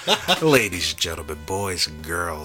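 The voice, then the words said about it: Sultry, sexy voice. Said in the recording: “You did like there a sultry, is. Sexy voice for that thing.”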